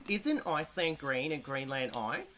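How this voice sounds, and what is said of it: Exaggerated broad Australian accent. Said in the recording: “the most Aussie accent I possibly can”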